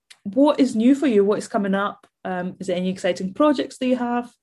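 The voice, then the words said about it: Hoarse, failing voice. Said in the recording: “keep losing my voice today”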